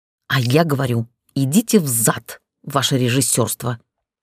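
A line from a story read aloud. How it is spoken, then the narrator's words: Through gritted teeth. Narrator (Russian): Процедила ему в лицо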